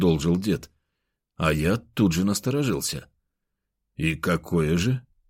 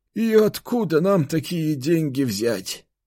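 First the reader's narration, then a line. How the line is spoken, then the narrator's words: Sorrowful sigh. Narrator (Russian): горестно вздохнул он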